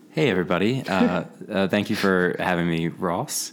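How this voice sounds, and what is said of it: Smooth radio announcer voice. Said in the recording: “such a smooth radio voice”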